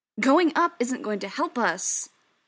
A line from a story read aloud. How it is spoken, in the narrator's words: Joe snapped